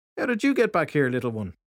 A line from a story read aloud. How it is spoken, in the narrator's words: Filthy Henry said in a cheery tone